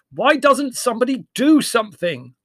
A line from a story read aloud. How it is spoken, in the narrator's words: asked Larry, raising his voice above the uproar